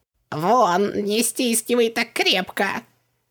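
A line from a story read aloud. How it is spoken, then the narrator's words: Half-choked squeak. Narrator (Russian): Пискнул полузадушенный джин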